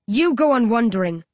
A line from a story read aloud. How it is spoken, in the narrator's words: I growl